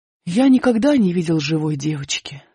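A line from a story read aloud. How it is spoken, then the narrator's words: Sighing. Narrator (Russian): сказал он, вздохнув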